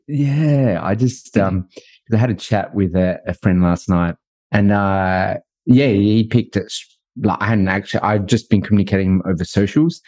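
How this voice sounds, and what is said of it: Australian accent. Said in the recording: “there's a bit of an accent. Are you Australian? ... that's got to be Australian for sure”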